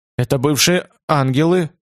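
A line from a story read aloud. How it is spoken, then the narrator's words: Uncertain. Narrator (Russian): сказал Томас неуверенно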